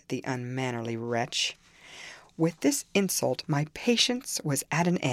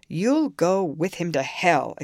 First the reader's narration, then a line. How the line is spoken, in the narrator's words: exclaimed his master